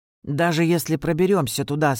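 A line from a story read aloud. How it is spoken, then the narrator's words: Plain question. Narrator (Russian): спросил Лео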